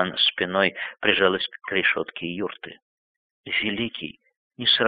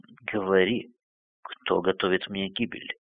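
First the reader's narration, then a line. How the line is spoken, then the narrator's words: Repeated in a whisper. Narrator (Russian): Каган повторял шепотом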